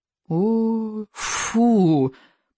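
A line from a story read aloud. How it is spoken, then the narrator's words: Groaning creature. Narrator (Russian): простонал рыбьенок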